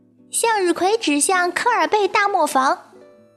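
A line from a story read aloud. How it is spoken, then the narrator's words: Loud shout. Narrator (Chinese): 卡门大声喊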